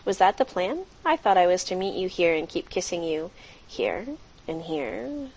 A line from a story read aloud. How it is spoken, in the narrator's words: chuckled out